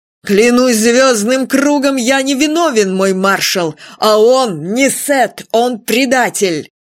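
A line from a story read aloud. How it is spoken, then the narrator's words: Shouting. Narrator (Russian): он крикнул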